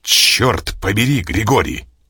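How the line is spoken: Sudden bark. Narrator (Russian): рявкнул он вдруг

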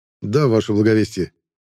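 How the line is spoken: Calm, hiding seething anger. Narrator (Russian): спокойно кивнул я, хотя внутри меня все аж клокотало

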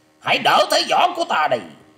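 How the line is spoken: Maniacal laughing shout. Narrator (Vietnamese): Lôi Minh Tiêu lại phá lên một trận cười to như điên dại quát ra

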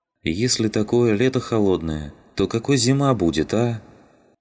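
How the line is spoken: Tired sigh. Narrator (Russian): Вздохнул Вафин, устало

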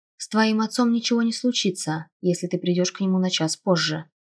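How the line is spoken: Plain. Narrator (Russian): ответил дракон

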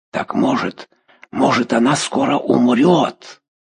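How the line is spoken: Old woman's hissing whisper. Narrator (Russian): Старуха свистящим шепотом сказала

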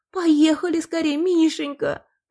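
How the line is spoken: Moaning woman in labor. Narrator (Russian): простонала роженица

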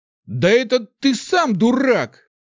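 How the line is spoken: Angry shout. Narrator (Russian): гневно выкрикнул он

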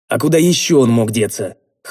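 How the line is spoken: Skeptical snort. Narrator (Russian): хмыкнул я

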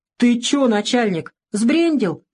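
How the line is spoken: Exclaimed. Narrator (Russian): воскликнул краснолицый сосед Савелия

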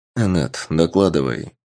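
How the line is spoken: Quiet male voice. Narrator (Russian): тихо сказал мужчина

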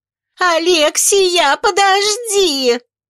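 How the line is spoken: Shrill squeal. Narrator (Russian): Взвизгнула толстушка

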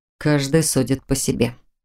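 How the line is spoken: Displeased grumble. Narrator (Russian): недовольно проворчал Норман

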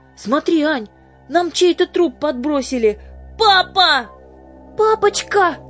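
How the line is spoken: Shouted. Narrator (Russian): закричала и Аня

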